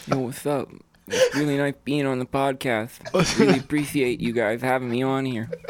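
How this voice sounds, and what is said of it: Caricatured imitation of another person's voice. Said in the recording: “your best impression. ... It's Mike Tyson, dude. ... I think I make him sound too, like, caricature-y.”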